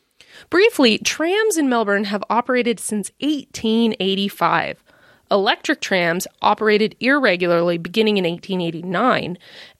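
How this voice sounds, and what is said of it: American Midwestern accent. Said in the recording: “given my accent, you can probably tell that I'm an American living in the Midwest”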